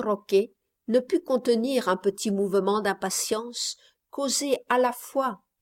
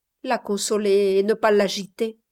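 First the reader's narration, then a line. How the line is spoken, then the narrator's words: Low voice. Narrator (French): répondit le médecin à voix basse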